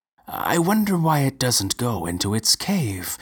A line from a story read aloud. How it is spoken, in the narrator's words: remarked Professor Injirami, calmly